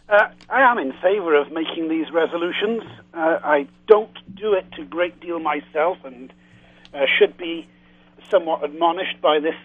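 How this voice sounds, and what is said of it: Lilting Welsh accent. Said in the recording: “I love your lilting Welsh accent.”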